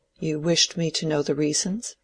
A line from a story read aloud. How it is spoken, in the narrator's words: said Dorothea timidly